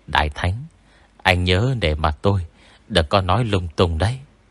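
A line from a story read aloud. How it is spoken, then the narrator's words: Soft whisper. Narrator (Vietnamese): Bóng Tây Mùa khẽ thì thào với Tôn Mập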